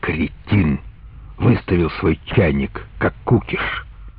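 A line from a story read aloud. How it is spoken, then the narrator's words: Hissing whisper. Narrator (Russian): один из них сказал Доде свистящим шепотом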